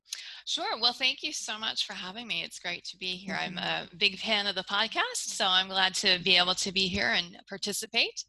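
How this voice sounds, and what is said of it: American accent. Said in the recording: “you can probably tell from my accent that I'm an American”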